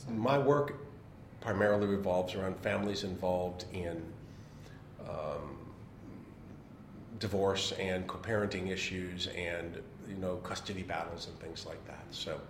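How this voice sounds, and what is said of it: American accent. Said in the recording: “someone with an American accent ... the first one with an accent that's not Australian”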